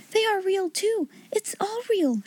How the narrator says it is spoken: she cried

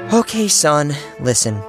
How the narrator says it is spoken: she sighed and said

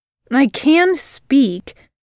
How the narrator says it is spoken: Virgil snapped

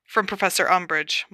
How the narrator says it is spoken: muttered Harry

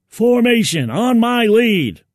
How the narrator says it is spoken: he yelled

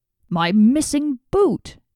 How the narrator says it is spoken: he cried

